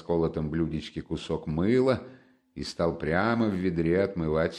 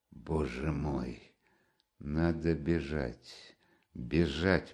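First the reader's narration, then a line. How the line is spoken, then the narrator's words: Mutter. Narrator (Russian): пробормотал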